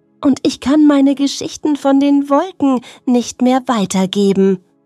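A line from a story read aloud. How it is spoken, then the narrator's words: Sighing puddle. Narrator (German): seufzte die Pfütze beim Spielplatz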